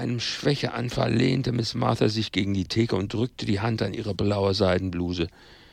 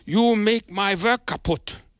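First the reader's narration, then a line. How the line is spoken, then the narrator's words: Angry shout. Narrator (German): rief er, und seine blauen Augen sprühten böse Funken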